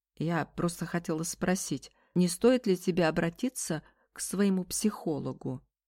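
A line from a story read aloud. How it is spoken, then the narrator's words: Plain. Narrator (Russian): сказала Барбара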